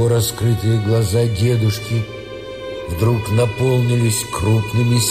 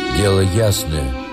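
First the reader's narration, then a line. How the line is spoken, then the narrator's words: Gloomy, angry. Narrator (Russian): мрачно и со злобой повторил Сергей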